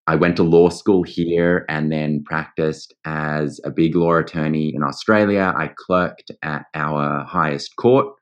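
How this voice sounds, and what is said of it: Australian accent. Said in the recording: “as you might hear by my accent, I am Australian”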